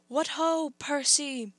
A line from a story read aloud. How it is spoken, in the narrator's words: shouted